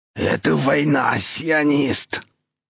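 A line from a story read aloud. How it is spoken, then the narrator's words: Furious hoarse rasp. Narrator (Russian): С бесконечной яростью прохрипел мотор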